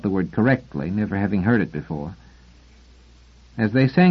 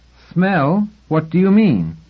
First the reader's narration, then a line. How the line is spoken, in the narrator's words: Raindrop 43 was offended enough to speak quite loudly